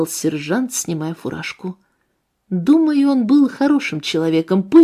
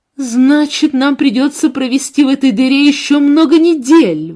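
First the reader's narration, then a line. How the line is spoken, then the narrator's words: Exclaimed. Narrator (Russian): воскликнула Гретхен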